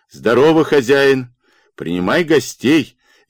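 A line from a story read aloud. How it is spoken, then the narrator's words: Cheerful shout from afar. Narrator (Russian): весело крикнул он из-за тына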